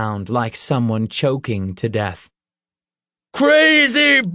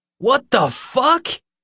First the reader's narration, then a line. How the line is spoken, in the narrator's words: Nick cried